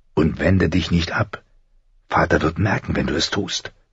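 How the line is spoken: Whispered. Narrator (German): flüsterte

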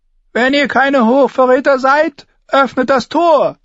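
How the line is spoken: Call. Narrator (German): rief Sir Armory

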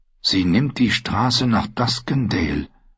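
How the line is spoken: Murmured. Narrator (German): murmelte Sir Kleos

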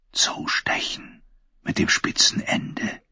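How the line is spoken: Whispering sword. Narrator (German): wisperte das Schwert

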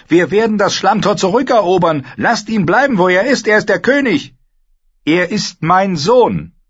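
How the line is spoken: Shouting. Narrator (German): schrie

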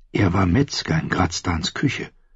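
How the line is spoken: Girl whispering in ear. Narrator (German): flüsterte das Mädchen ihr ins Ohr

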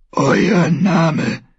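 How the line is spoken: Hoarse voice. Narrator (German): Seine Kehle war rau

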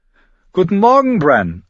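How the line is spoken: Cheerful call. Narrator (German): rief Clay fröhlich

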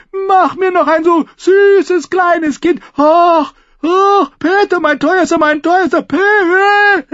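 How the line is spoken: Screaming. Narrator (German): schrie sie

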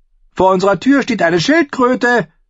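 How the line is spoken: Scream. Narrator (German): Als Pip schließlich schrie

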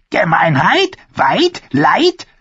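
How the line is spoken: Shrieking. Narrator (German): kreischte zusammen mit Goldie

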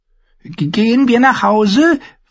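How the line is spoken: Excited question. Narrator (German): fragte Rickon aufgeregt

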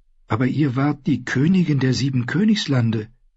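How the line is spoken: Plain. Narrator (German): sagte Sansa

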